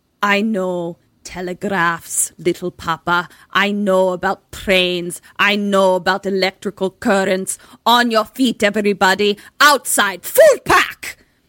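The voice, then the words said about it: Unconvincing put-on Russian accent. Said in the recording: “That's the end of my Russian accent ... Russian accent ... I'm glad you explained what it was supposed to be ... you didn't know what accent it was”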